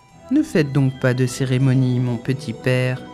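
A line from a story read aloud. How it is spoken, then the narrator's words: Muffled retort. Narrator (French): riposta d'une voix sourde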